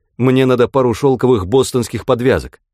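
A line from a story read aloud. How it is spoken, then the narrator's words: Hurried. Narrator (Russian): торопливо сказал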